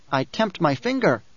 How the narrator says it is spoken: Bejaws protested, voice squeaking

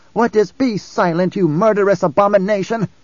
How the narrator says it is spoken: Jessica snapped

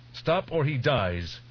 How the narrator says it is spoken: shouted

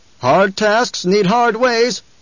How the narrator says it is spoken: someone shouted

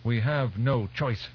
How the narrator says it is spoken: Rosmali barked

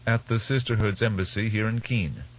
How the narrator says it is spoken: Tuwek said

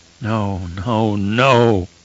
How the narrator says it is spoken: he moaned deep in his throat

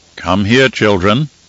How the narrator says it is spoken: Harishka said in a solemn tone

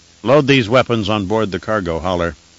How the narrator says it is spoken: he said

